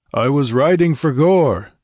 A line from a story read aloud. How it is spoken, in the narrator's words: he roared